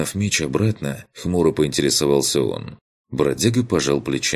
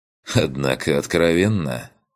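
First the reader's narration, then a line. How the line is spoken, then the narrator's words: Wry snort. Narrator (Russian): хмыкнул Корт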